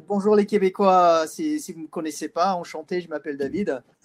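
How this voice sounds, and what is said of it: Strong British accent in French. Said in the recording (French): “un terrible accent britannique”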